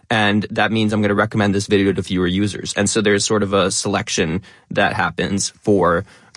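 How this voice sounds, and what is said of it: Fast talking, stressing many words. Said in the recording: “I speak in a what I call an educational influencer accent. I'll talk very quickly. I'll stress more words ... you were a fast talker always ... I definitely am a fast talker”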